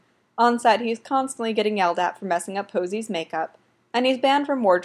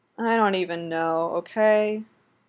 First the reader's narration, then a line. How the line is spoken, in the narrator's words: Dylan tells him honestly, and heaves this rib-shaking sigh